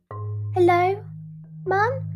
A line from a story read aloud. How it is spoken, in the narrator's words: called out the ugly duckling